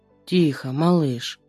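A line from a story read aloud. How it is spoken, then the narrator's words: Tender whisper. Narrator (Russian): шепчет Пальчевский ласково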